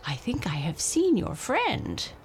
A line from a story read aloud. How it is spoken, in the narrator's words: the raven croaked